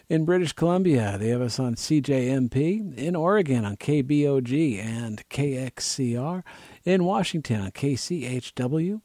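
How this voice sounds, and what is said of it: Hoarse, failing voice. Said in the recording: “My voice is, I'm losing. I had to turn it down and cough at you.”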